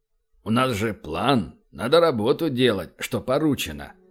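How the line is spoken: With a snort. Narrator (Russian): хмыкнул и сказал

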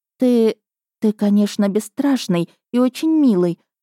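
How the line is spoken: Sighing. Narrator (Russian): вздохнула я

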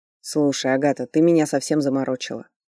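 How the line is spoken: Irritated snap. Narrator (Russian): огрызнулся Ричард

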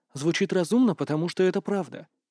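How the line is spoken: Calm. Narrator (Russian): спокойно сказал Роберт

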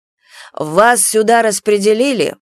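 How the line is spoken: Irritated explanation. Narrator (Russian): Раздраженно пояснили ей вопрос

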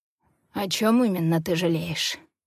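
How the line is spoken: Hoarse question. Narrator (Russian): хрипло интересуется он

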